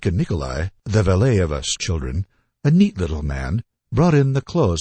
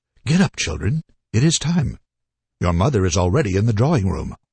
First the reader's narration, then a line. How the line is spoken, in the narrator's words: spoke in German, and in his kindly voice exclaimed